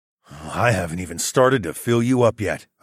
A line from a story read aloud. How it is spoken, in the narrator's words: growled